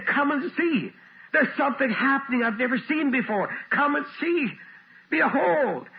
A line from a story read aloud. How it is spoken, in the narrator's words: David got excited and he said